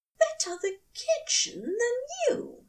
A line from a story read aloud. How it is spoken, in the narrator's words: he said merrily